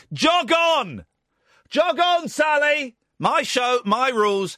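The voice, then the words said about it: Loud shouting radio delivery. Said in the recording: “will you please stop shouting? ... At the moment, we're being noisy.”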